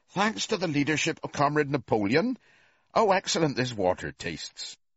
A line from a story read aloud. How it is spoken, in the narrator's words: two cows, enjoying a drink at the pool, would exclaim